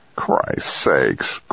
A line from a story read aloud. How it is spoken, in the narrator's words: Craig grumbled